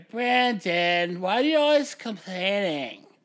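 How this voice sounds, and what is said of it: Whiny girlish voice. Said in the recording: “That was just a whiny girl voice.”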